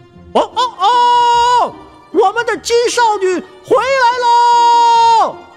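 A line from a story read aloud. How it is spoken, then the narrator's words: Loud rooster crowing. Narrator (Chinese): 公鸡在井台上高声啼鸣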